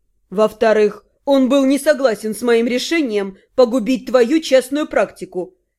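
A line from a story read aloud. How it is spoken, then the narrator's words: Reluctant grumble. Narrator (Russian): нехотя проворчал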